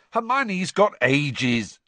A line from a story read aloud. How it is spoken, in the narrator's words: snapped Ron